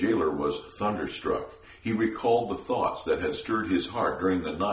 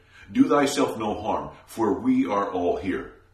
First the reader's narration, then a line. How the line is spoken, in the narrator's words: Paul cried